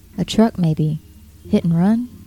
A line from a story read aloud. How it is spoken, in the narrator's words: Her voice was as calm as a newscaster's